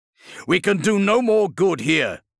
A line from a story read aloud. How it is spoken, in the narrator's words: shouted Justinian against the relentless firecracker snap of bolts exploding on the wall exterior